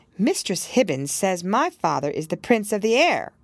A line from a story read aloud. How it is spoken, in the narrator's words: cried Pearl with a naughty smile